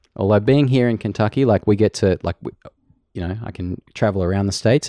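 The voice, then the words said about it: Australian accent. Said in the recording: “You just have a way cooler accent ... the proper Aussie”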